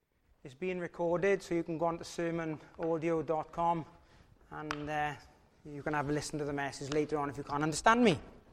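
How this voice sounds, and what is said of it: Strong, hard-to-follow accent. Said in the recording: “difficulty understanding my accent.”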